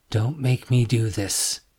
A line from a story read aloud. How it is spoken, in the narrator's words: Joe said under his breath